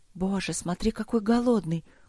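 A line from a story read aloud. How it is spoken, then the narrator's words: Woman's whisper. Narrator (Russian): шепот хозяйки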